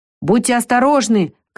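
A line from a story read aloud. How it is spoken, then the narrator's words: Shouting after someone. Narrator (Russian): крикнул майстер Нилс уже в спину убегающим Вике и Лукасу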